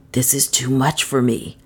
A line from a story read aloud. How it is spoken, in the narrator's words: he said in a whisper